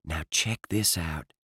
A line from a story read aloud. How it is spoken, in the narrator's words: Jack said quietly